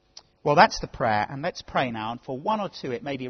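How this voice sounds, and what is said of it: Usual voice. Nothing is said of it.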